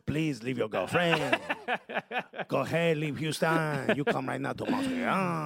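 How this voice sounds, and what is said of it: Put-on French Canadian accent. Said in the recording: “French people love that. When you do that, when you do that voice... French Canadians.”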